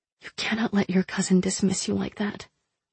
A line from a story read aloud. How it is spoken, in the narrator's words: I whispered